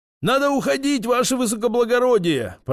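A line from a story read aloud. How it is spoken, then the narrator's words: Shouted. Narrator (Russian): прокричал водитель дворянину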